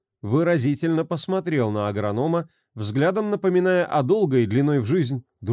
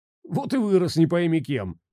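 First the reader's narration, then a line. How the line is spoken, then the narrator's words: Pleased laughter. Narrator (Russian): рассмеялся Андрюха, довольный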